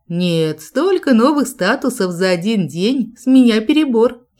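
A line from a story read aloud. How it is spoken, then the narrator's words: Giggling declaration. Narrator (Russian): хихикая заявила я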